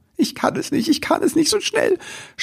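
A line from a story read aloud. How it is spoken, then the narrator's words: Sobbing. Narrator (German): schluchzte Ribbelwitsch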